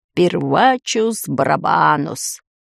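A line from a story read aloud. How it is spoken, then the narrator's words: Mumbling. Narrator (Russian): глава школы волшебства пробормотал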